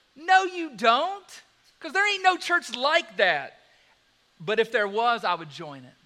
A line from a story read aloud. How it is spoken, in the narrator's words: in a mocking way says